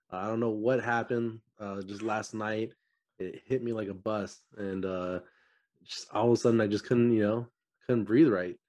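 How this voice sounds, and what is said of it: Voice sounds a little weird. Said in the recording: “Allergies are killing me right now ... my voice sounds a little weird”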